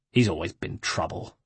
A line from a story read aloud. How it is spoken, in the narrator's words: snarled Francesco